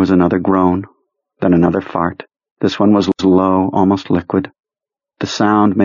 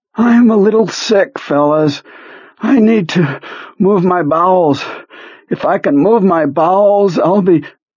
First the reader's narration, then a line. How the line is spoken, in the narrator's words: He groaned, then said